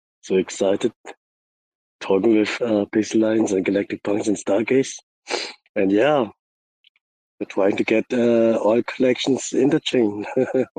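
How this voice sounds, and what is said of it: Voice sounds a little sick. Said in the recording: “My voice is a little bit, like I'm sick”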